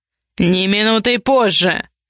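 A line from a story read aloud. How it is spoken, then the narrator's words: Deafening bark. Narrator (Russian): Рявкнул так, что она наверняка вздрогнула или даже оглохла на одно ухо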